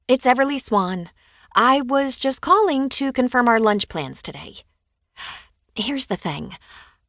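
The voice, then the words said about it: Cheerful, bright voice. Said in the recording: “in my cheeriest voice”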